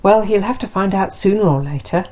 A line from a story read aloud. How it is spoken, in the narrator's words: he said